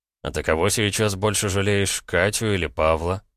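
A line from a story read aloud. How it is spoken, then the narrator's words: Mocking question. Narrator (Russian): насмешливо спросил я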